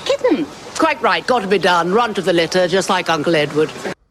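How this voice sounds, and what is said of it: Put-on upper-class English accent. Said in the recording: “you're putting on a bad English ... That's English ... impersonating the woman”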